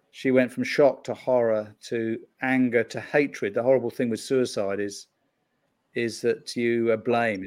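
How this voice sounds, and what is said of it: British accent. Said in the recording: “probably tell from the accent, I'm not from Chicago. You know, I'm from the UK”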